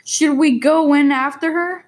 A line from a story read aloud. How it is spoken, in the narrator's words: cried Fat